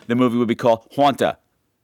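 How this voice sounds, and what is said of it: Put-on Long Island accent. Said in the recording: “if I was to speak in the accent of my people, as in Long Island”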